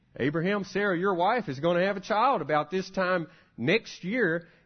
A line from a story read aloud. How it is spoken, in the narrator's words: she laughed